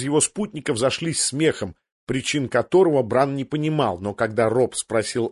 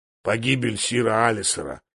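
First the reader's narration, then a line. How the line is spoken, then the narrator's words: Grumble. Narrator (Russian): буркнул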